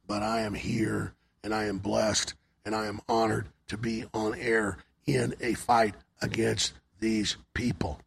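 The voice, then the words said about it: Hoarse, failing voice. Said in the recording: “bad allergies ... My voice started going a couple days ago ... My voice is gone.”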